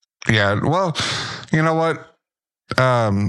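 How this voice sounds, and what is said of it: Usual voice. Nothing is said of it.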